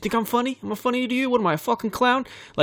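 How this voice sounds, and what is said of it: Rough over-the-top New York mobster accent. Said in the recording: “It's going to be bad, I know it, but all I can think of is like the Goodfellas ... over-the-top New York guy”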